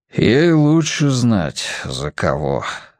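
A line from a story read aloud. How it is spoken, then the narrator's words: Breathed out. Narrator (Russian): выдохнул отец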